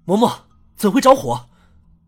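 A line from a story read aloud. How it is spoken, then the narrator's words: Angry. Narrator (Chinese): 郑文安怒意冲冲地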